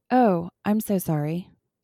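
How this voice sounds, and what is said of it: Flat monotone delivery. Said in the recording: “Just like that, like in a monotone.”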